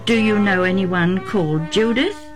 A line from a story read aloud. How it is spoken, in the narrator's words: Isaac asked